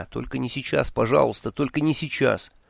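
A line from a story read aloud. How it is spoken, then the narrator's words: Pleading mumble. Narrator (Russian): умоляюще бормоча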